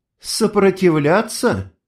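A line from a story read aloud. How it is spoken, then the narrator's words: Skeptical snort. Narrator (Russian): она хмыкнула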